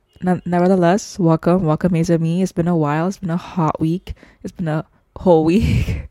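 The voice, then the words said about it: Congested voice from a cold. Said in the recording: “my voice is a bit different to the previous episodes, it's because I have a cold ... dry cough”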